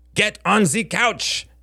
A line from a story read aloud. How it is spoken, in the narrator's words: barked Helen in a faux German accent